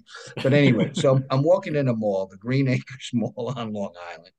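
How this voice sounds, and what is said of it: Native New York accent. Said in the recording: “I'm a native New Yorker. A lot of people can hear that in my accent.”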